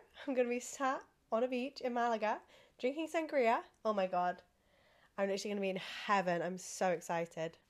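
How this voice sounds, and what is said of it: Sick, sniffly congested voice. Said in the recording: “are you sniffly? Like, you sound poorly ... my voice is horrendous because I'm so poorly and I'm still ill”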